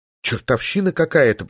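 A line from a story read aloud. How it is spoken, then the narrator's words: Nervous muttering. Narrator (Russian): пробормотала Полина, нервно покусывая нижнюю губу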